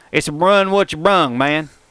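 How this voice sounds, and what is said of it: Put-on redneck accent. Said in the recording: “in a redneck voice... Y'all like that accent?... talk exactly like this”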